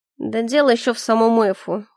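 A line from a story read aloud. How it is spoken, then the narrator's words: Snort. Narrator (Russian): хмыкнул Калипса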